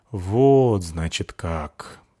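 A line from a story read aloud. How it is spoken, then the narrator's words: Drawling. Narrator (Russian): протянул Вассагов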